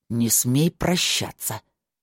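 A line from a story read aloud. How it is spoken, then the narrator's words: Angry growl. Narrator (Russian): зло прорычал Кай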